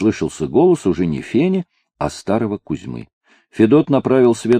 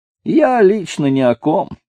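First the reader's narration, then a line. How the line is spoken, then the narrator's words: Strained laugh. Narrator (Russian): натянуто засмеялся Федот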